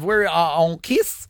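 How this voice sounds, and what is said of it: Odd foreign-sounding tour guide voice. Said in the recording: “I sound like a tour guide in Nepal”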